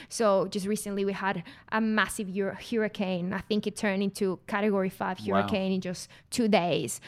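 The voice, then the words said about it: Mexican-accented English. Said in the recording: “As you may tell because of my accent, I'm not from Australia. I'm from Mexico”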